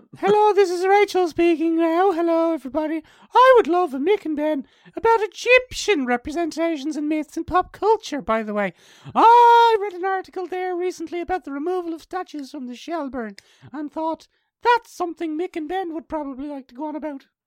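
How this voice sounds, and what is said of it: Theatrical imitation of another person's voice. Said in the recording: “in Rachel's voice ... Like a theatrical ... that impression”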